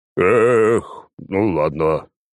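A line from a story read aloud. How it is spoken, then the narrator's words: Sigh. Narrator (Russian): вздохнул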